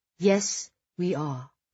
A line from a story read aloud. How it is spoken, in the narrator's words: he sighs frustratedly